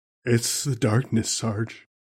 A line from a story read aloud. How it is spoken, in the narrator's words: Private Bukowski mumbled from his dreamlike state